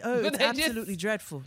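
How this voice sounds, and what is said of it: Put-on polite British accent. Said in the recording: “their shade is like polite because it's in the accent. ... The accent makes it seems like if it's polite”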